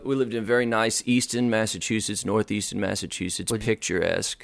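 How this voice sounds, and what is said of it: Boston accent. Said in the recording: “You're from Boston?... There you go, the accent... Yeah, it comes out”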